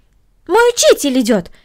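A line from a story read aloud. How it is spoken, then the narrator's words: Exclaimed. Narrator (Russian): воскликнула Корнели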